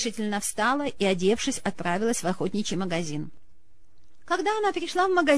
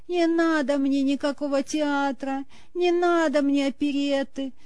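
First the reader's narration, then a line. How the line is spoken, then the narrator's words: Tragic voice. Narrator (Russian): трагическим голосом сказал Стрельцов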